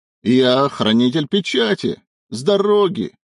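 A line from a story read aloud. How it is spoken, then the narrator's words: Roar. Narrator (Russian): взревел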